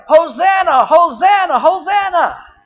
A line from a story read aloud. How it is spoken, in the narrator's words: people started hollering